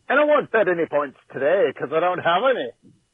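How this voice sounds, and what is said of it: Really terrible put-on Irish accent. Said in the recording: “a really terrible Irish accent”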